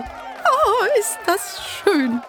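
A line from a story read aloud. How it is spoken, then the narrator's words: Laughing exclamation. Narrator (German): rief Clara lachend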